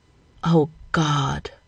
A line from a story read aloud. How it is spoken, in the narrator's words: The gasp brushed out involuntarily as John's hand came down on him